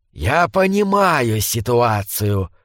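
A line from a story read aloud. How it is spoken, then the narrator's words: Hissing. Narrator (Russian): прошипел Брукалак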